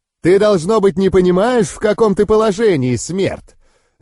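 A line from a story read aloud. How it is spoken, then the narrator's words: Demon barking. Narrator (Russian): Рявкнул демон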